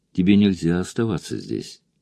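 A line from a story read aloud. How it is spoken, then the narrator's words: Soft. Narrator (Russian): мягко сказал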